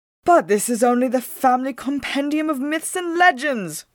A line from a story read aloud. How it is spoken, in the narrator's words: cried Whitmo at once